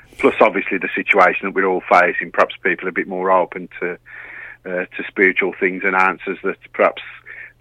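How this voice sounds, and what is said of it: Black Country English accent. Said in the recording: “do I detect a Brummie accent there? ... It's actually the Black Country, but you're not far off.”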